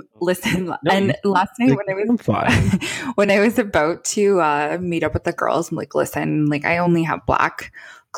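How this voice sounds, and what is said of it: Hoarse, raspy voice. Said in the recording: “hoarsey my voice is? Like, I feel like I sound like a smoker ... I don't have a voice”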